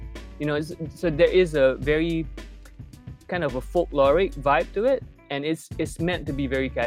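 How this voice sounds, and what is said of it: Usual voice. Nothing is said of it.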